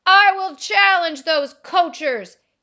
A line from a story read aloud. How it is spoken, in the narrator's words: he yelled